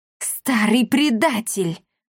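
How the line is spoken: Breathed out. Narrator (Russian): выдохнула

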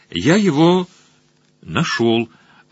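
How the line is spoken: Somewhat uncertain reply. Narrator (Russian): ответил Сакси несколько неуверенно

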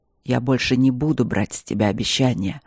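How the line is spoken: Rumbling voice close to ear. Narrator (Russian): сказал Нори своим ракочущим голосом, касаясь губами ее уха

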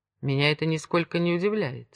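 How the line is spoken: Calm reply. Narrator (Russian): спокойно ответил Монтанелли

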